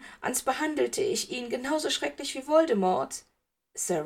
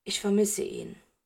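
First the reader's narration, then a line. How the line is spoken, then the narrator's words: Plain. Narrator (German): sagte er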